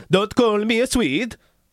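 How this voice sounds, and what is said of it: Bad Swedish accent impression. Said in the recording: “that's a horrible accent. ... That's a Swedish accent.”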